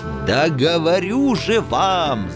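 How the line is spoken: Offended officer yelling. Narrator (Russian): заорал обиженный недоверием офицер

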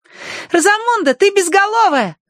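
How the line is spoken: Joyful shout. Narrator (Russian): радостно крикнула Агнес

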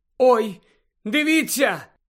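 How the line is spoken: Exclamation. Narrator (Ukrainian): вигукнула Джинні

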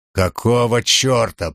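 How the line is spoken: Growling. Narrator (Russian): прорычал он

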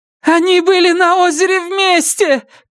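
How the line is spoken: Shouting. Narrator (Russian): кричала Памела

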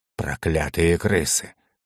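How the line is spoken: Old man's creaky voice. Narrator (Russian): наконец проскрипел старик

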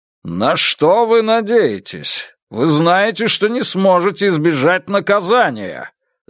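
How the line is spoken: Commanding shout. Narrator (Russian): закричал он как можно более властным голосом

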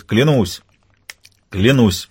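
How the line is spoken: Cheerful. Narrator (Russian): весело говорит тот

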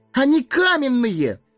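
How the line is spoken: Wailing yell. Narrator (Russian): вопил Сэмми

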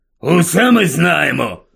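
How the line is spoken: Grumbling. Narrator (Ukrainian): буркнув дядько Вернон

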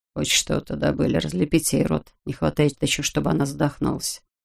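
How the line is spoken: Low voice. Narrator (Russian): Тарасов сказал вполголоса

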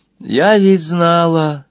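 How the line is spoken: Sad. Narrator (Russian): печально добавила Нина

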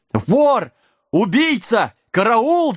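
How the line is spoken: Yelling innkeeper. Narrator (Russian): завопил трактирщик

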